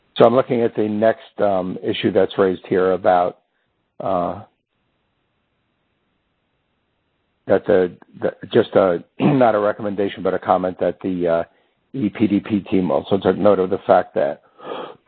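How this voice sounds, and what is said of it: Hoarse, failing voice. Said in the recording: “I'm losing my voice a little bit”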